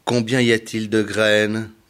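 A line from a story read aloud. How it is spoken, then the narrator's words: Plain. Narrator (French): demanda-t-il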